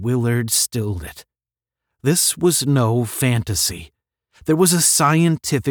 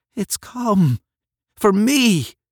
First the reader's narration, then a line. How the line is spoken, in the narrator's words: Deep within him, a faint voice cried